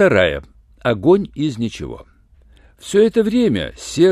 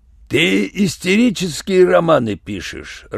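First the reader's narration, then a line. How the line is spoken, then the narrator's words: Growling. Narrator (Russian): рычал Юренев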